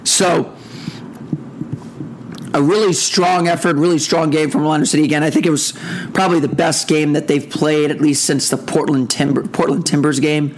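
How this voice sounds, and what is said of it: Hoarse voice. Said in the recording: “my voice is hoarse, because I was at the game”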